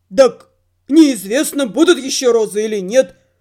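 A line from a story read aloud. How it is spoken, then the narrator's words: Grumbling. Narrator (Russian): проворчал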